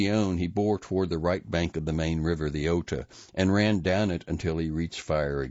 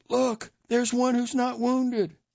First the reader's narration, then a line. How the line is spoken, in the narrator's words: several exclaimed